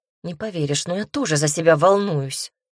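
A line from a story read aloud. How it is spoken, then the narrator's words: Nervous snort. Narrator (Russian): хмыкнула нервно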